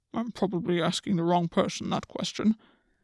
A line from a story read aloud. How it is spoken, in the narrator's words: the Oak King muttered